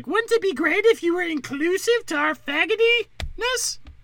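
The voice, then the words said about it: Weird cartoonish character voice, poorly done. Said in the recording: “I gave him a weird Jar Jar Binks voice ... Not a very good Jar Jar Binks impression either”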